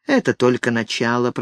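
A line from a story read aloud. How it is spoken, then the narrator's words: Muffled mutter. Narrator (Russian): пробормотал Ник, зарываясь лицом в ее волосы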